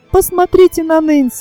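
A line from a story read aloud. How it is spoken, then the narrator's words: Sudden exclamation. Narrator (Russian): вдруг воскликнул Тони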